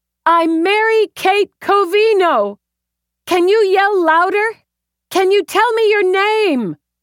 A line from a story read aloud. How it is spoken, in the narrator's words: It came in a high, thin scream she could barely make out